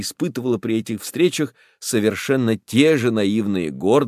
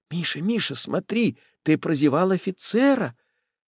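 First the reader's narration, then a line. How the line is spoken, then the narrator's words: Anxious whisper. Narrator (Russian): мать тревожно шепнула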